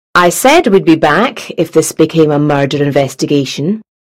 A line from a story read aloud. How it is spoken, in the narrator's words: she said